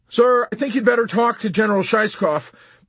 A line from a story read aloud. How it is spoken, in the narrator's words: pleaded the sergeant nervously